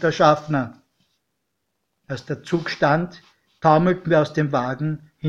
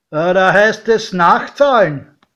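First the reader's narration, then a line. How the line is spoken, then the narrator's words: Calling out. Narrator (German): rief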